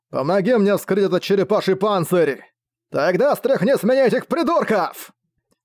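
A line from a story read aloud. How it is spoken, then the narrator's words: Dragon's angry bark. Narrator (Russian): Рявкнул в ответ дракон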